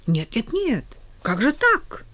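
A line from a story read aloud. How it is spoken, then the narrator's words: Exclamation. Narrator (Russian): воскликнул официант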